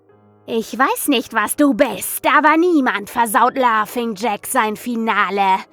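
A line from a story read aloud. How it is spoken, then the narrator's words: Shrieked. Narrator (German): kreischte ich das Ding an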